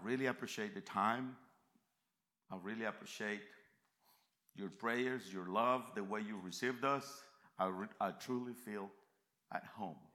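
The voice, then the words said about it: Central American accented English. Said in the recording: “please forgive my southern accent... I live in Central America... I have a worse accent”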